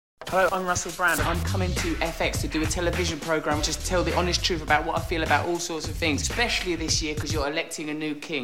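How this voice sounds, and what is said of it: Strong, hard-to-understand accent. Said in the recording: “an accent that you can barely understand”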